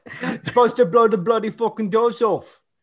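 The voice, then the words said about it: Cockney accent, imitates another person's voice. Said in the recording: “It's the Cockney accent... now I'm turning him into Michael Caine”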